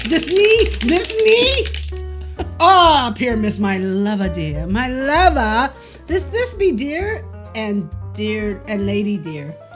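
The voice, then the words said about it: Monstrous little character voice. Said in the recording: “I'll speak in a monstrous little voice.”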